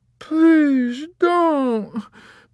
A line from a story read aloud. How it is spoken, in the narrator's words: begged the drunken lady